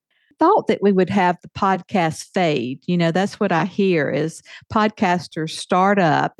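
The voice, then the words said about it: Southern American accent. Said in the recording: “we love your Southern accent ... you definitely have not”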